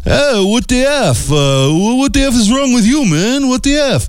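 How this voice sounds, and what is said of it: Put-on New York City accent. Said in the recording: “Oh, he's French... No, that was my New York City accent”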